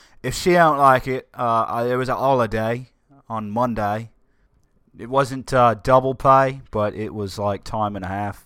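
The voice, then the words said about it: Put-on British accent. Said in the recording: “I don't even know why I'm speaking in a bloody accent. This is what we liberated ourselves from.”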